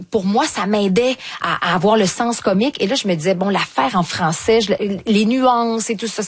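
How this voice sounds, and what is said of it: Strong Québécois French accent. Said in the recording (French): “j'ai un fort accent québécois”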